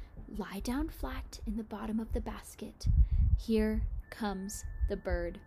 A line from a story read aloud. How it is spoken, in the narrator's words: Noomzor Noom whispered to Tall and Milly Tinkle